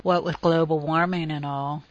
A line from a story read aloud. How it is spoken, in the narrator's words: Justine murmured pathetically